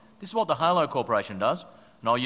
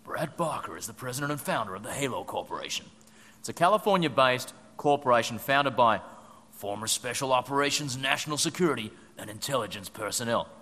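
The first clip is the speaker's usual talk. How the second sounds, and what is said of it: Dramatic Hollywood movie trailer voice. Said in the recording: “I'll use my best Hollywood movie trailer voice.”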